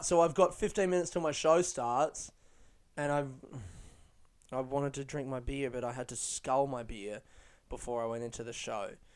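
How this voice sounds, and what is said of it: Upset-sounding voice. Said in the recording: “I know my voice sounds upset”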